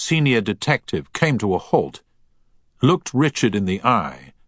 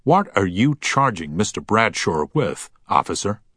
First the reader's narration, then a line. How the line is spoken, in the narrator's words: said firmly